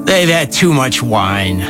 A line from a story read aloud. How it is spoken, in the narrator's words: others, mocking, were saying